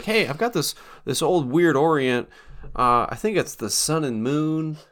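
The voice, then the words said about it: Weird put-on impersonation voice. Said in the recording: “My dad doesn't talk like that. ... a weird impersonation of who knows who that is”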